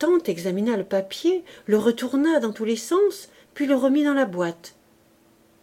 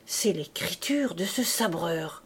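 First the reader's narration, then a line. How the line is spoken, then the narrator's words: Low voice, muttering to himself. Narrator (French): Gillenormand dit à voix basse, et comme se parlant à lui-même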